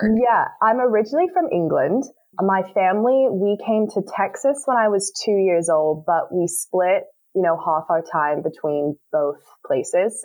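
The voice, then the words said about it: Mixed English and American accent. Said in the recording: “she has an accent ... I kind of have a very funky accent. It almost seems like I've just been placed in the like middle of the Atlantic Ocean”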